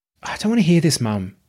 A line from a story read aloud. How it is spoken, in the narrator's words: sighed